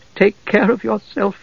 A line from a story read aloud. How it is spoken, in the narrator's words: Tika said softly, brokenly